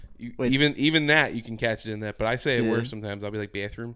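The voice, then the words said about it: Philadelphia accent. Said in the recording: “I get caught being from Philly everywhere I go... The accent can be pretty bad.”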